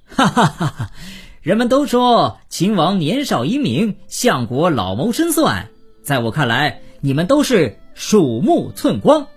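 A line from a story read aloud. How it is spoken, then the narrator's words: Laughing heartily. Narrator (Chinese): 郑国被绑，反倒哈哈大笑，说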